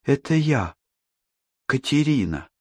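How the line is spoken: Soft young woman. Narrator (Russian): мягко сказала девушка

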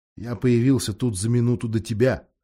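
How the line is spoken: Plain. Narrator (Russian): ответил Юстас

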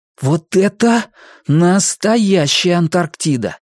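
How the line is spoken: Exclamation. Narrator (Russian): воскликнул Хуахуа

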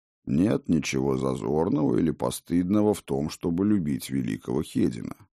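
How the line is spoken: Calm, sympathetic. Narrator (Russian): спокойно и сочувственно сказал мастер

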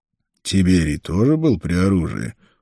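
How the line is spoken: Grumbling. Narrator (Russian): проворчал Конан

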